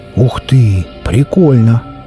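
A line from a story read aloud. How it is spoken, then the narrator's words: Surprised exclamation. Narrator (Russian): Удивленно тараща глаза, воскликнул ехавший рядом Серж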